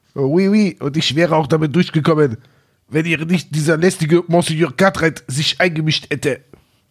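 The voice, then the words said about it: Cheap fake French accent. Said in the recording (German): “den billigen französischen Akzent”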